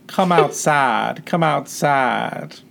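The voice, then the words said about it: Sultry southern-accented voice. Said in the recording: “a person possessed by a demon sounds kind of sexy in a southern accent”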